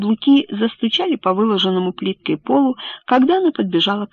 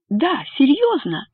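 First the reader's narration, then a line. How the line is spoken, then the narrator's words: Exclaiming. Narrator (Russian): воскликнула Бетти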